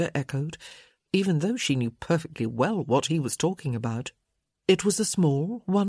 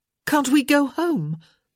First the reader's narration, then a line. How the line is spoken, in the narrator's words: she asked a little desperately